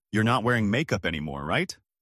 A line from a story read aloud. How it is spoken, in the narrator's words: laughed